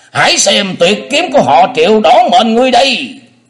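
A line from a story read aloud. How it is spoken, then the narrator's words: Thunderous scream. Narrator (Vietnamese): vị tà thần ấy thét lên như sấm nổ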